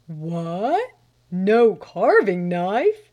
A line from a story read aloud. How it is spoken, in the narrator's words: he roared imperiously